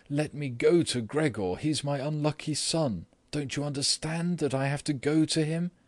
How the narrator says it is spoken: she then cried

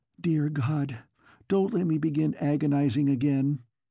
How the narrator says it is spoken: she sobbed

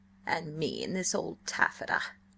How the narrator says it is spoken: she grumbled

